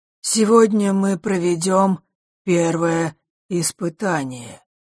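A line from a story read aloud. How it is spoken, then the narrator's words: Usual muffled voice. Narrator (Russian): произнес хозяин замка обычным глухим голосом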